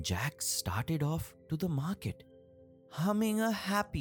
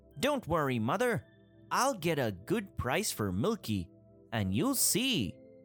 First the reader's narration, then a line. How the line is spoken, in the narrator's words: Jack said cheerfully